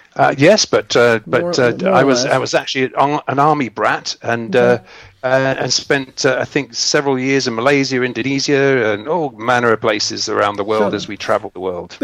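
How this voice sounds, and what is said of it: English accent. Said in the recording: “You're English, obviously. I can tell by your accent.”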